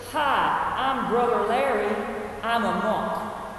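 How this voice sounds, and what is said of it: Imitated thick Southern accent. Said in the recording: “his accent, despite many years at Berkeley, was still as thick as peach syrup ... I'm still not going to do this accent justice, but I'm going to try”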